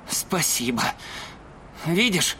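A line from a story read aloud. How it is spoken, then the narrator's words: Mumbling. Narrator (Russian): пробормотал Сойер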